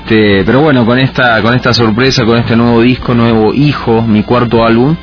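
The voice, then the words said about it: Argentine Spanish accent. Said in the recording (Spanish): “De Argentina, no se me va el acento”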